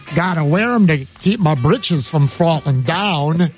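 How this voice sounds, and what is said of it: Imitated accent, weak imitation. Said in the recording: “You had the most beautiful accent. Much better than I tried to portray.”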